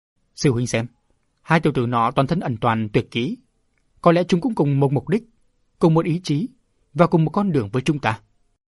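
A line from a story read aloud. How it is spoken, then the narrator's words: Old man, thunderous laughter. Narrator (Vietnamese): Lão nhân cười to như sấm nói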